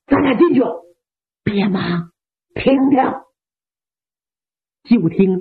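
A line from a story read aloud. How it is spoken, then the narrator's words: Quiet. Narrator (Chinese): 小声的说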